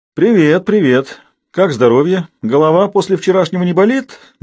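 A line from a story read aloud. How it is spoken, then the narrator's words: Mocking. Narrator (Russian): насмешливо поинтересовался Габузов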